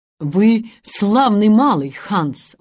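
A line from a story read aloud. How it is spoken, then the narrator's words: Yielding exclamation. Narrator (Russian): воскликнул Питер, уступая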